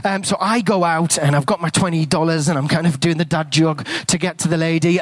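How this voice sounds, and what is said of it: English accent. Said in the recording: “you're not a Kiwi ... I've got an English accent.”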